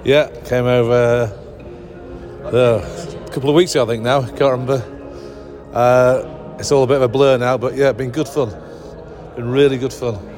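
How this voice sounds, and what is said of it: Manchester accent. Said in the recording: “Another Manchester accent.”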